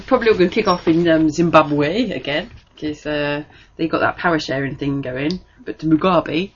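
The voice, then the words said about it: Funny newsreader-style pronunciation. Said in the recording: “Did you just do a bit of a funny accent then? ... I was just saying it in the right way. It's like the sort of thing that What's Her Face would do ... she's a newsreader”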